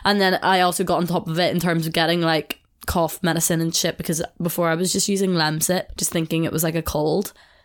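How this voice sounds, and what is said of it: Nasal, congested sick voice. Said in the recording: “hear it in my voice. I'm probably quite nasally ... I assume I sound terrible”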